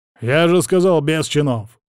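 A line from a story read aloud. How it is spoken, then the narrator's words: Barking. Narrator (Russian): рявкнул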